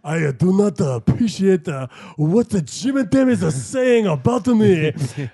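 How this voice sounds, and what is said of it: Jokey put-on accent imitating someone. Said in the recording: “Paul McCartney in real life was like so he. In my dream, he talked like ... joke accent”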